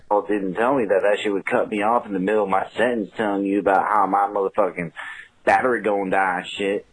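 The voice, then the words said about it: Country Carolina Southern accent. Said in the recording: “this guy's got like a country ass Carolina accent.”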